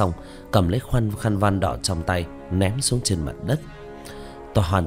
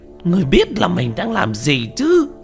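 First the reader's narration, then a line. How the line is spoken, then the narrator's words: Shouting. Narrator (Vietnamese): Quỷ Di hét lên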